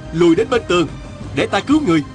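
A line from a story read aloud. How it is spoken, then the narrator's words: Shouting. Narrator (Vietnamese): Diên Thừa Chí la lên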